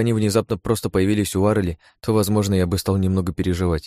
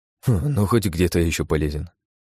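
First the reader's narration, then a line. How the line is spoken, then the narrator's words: Sad wry chuckle. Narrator (Russian): грустно усмехнулся он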